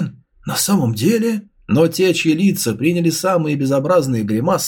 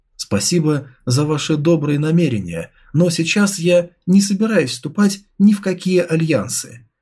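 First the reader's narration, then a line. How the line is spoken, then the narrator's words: Calm reply. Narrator (Russian): спокойно ответил Чуфэн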